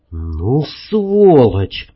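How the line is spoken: Hissed through teeth. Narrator (Russian): процедил сквозь зубы

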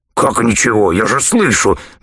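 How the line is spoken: Soundless hiss. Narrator (Russian): беззвучно прошипел Нагатарекс

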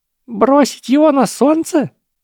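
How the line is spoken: Squeak. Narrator (Russian): пискнул профессор Флитвик

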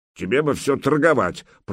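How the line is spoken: Reproachful grumble. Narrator (Russian): проворчал Добрыня укоризненно

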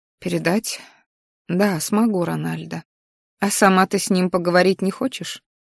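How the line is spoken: Sighing woman. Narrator (Russian): женщина, вздохнув, неожиданно сказала

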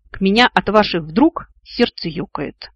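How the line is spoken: Snapping back. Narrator (Russian): огрызнулся Вик

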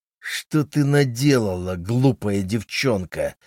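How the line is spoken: Angry growl. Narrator (Russian): прорычал он со злостью

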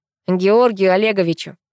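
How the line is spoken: Snort. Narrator (Russian): хмыкнул Пашка

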